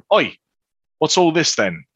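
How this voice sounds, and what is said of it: Put-on guard accent. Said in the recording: “we're going to let that accent just go ... you're so good at this ... every once in a while you try and mix accents”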